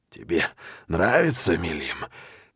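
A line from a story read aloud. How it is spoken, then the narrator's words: Hoarse. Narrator (Russian): хрипло спрашиваю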